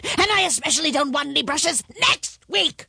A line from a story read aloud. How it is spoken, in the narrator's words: the voice roared